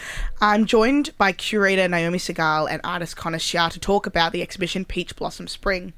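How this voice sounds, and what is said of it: Voice affected by a cold. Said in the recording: “I've got a cold today, so my voice is not at its peak optimum”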